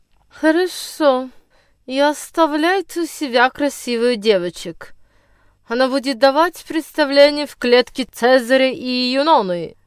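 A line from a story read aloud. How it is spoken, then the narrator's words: Muttered through teeth. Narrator (Russian): процедил сквозь свои желтые зубы мистер Биль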